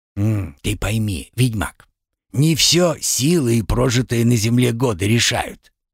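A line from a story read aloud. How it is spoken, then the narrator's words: Gentle, as to a child. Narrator (Russian): мягко, как ребенку, объяснил Карпыч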